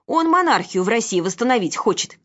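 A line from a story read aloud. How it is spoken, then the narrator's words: Shouted. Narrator (Russian): крикнула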